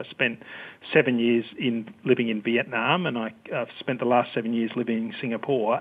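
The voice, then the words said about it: Australian accent. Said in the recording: “as you can probably tell from my accent, I'm Australian”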